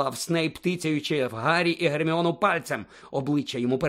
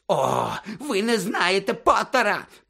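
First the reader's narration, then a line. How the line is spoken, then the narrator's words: Shrieking. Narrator (Ukrainian): продовжував верещати Снейп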